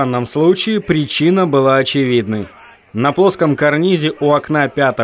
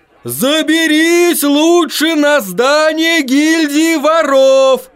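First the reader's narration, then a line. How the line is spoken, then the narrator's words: Man shouting. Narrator (Russian): кричал один мужчина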